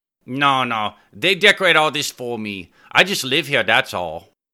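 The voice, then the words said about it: Strong Asian accent. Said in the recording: “a strong Asian accent in the way ... spoke”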